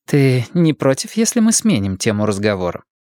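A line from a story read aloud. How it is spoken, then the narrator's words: Dry question. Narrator (Russian): сухо спросила Ортега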